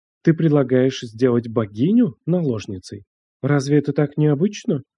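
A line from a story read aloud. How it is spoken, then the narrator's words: Soft chuckle. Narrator (Russian): Цзяо Лин мягко усмехнулась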